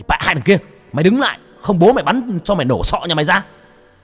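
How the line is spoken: Loud shout. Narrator (Vietnamese): Anh Phương hét lớn

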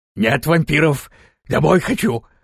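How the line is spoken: Barking voice. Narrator (Russian): лающим голосом ответила голова

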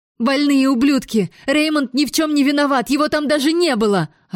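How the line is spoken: Yelling. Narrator (Russian): орала я

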